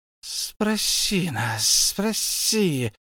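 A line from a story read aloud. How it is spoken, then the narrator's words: Hissing. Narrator (Russian): шипел Голум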